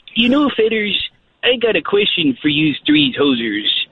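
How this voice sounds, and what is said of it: Put-on Canadian accent. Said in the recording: “Canadian impersonations”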